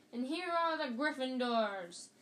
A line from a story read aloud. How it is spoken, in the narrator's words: yelled Lee Jordan, who was acting as commentator